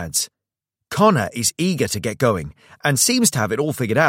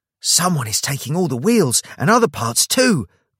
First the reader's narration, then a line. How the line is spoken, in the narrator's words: Greg exclaims, worried